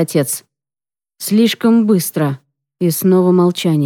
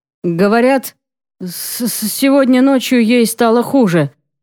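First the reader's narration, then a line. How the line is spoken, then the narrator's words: Slight stutter. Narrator (Russian): сообщает он, слегка заикаясь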